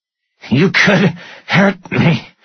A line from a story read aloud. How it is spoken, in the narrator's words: Stone gasped